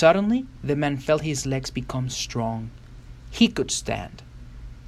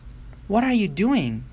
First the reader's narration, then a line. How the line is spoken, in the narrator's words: cried the man